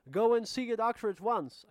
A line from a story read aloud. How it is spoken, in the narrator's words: I shouted